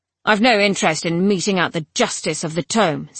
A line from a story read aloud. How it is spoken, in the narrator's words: said Captain Deuteros gruffly